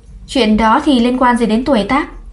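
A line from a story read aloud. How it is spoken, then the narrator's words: Cold, thin smile. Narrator (Vietnamese): Ta mím môi cười nhạt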